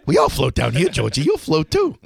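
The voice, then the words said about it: Pennywise clown character voice. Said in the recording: “Do a good Pennywise impression ... do your best Penny”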